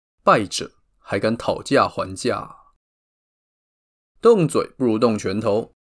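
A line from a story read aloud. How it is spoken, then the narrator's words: Cold, angry. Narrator (Chinese): 布伦努斯一气之下，冷冷地说出了他的千古名言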